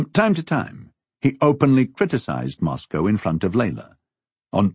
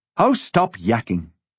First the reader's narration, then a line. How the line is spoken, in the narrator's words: Layla snapped at him